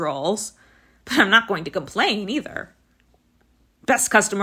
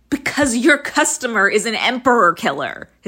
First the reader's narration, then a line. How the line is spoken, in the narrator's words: his nephew shouts